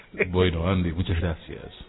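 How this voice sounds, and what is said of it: Put-on radio announcer voice. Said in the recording (Spanish): “puso voz de locutora”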